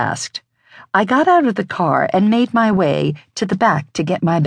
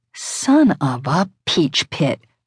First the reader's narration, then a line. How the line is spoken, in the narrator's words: I growled